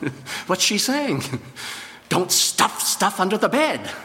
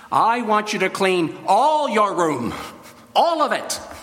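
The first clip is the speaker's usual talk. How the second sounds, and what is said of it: Strong, forceful commanding voice. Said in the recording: “in a very strong voice”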